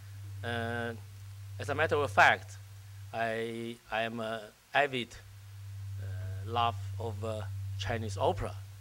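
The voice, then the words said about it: Voice weakened, less loud than usual. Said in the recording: “my voice was, uh, has, has been very, very loud, but I suffered some cold”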